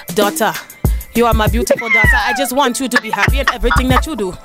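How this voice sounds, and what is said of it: Put-on Nigerian mother accent. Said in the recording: “my best Nigerian mama accent ... That wasn't bad.”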